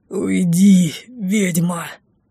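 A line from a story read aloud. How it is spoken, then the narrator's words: Strained, through gritted teeth. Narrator (Russian): Дефос, жутковато скрипнув зубами, с трудом выдавил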